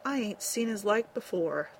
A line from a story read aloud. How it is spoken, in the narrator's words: he murmured